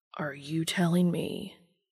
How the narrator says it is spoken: Dean says quietly, a little dangerous

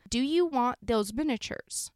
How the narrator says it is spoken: Brady said in a very loud voice

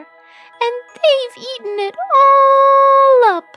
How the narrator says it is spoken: squealed the baby bear

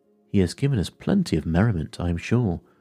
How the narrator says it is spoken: said Fred

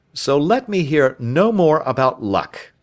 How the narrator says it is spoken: said Travis firmly

